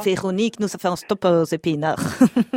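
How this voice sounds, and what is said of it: Put-on Belgian French accent. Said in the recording (French): “il est nul, mon accent ... Non, c'est pas mal. Non, c'est pas mal.”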